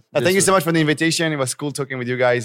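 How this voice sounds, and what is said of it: French accent. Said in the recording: “some French accent”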